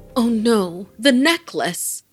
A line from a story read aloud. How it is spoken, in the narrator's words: Farah exclaimed